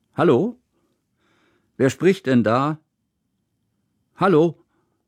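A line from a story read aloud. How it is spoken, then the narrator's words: Loud echoing voice. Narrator (German): Laut hallte Kusmins Stimme durch den Raum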